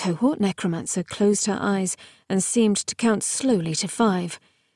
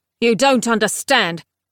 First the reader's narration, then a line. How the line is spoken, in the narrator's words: Palamedes said savagely